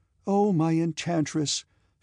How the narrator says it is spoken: she cried

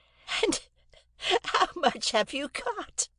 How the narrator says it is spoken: asked my sister, laughing, positively laughing

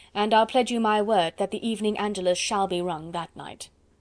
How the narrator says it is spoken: retorted Chauvelin dryly

